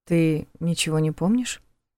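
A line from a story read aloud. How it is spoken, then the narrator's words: Deliberately calm question. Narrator (Russian): Нарочито спокойно спросил он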